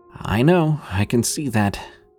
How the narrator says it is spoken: replied with a nervous chuckle

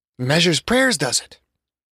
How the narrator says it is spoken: Traces of Father Al's Latino heritage rolled faintly in his voice, but his fatherly love for Gordo rang strong with every word

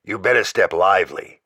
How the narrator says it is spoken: Jack warned me, in that gravelly voice of his that always sounded the same whether sober or stewed

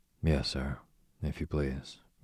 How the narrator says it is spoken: murmured the boy

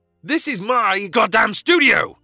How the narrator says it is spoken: screamed Jack

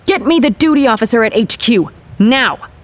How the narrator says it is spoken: shouted

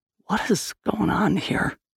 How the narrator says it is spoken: Liam whispered

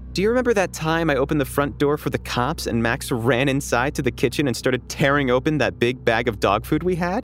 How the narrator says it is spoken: my mom blurted out

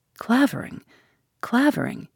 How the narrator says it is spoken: murmured, with quaking lips

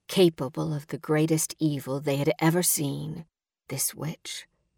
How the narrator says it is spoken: he said

